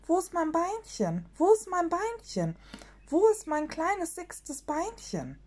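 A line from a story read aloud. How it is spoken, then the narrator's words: Old great-grandfather screaming. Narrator (German): der Urgroßvater Sumsemann schrie und sagte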